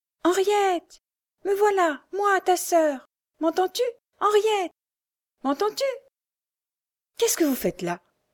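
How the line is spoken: Exclaiming. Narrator (French): s'écria la Frochard

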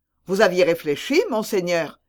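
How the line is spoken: Quick, lively exclaiming. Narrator (French): s'écria vivement Vanel

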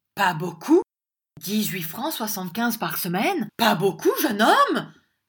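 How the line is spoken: Shouted. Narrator (French): cria M

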